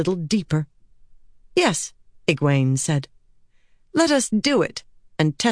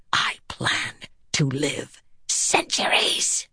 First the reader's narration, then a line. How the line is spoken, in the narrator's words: Egwene hissed